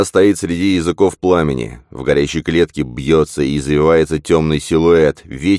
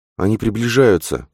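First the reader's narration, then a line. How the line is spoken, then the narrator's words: Moaning. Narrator (Russian): простонала она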